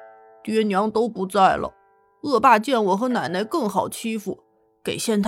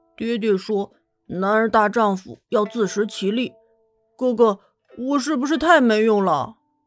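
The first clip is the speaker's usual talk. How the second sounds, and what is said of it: Quiet, shy murmur. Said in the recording (Chinese): “不好意思的挠挠头，小声的念道”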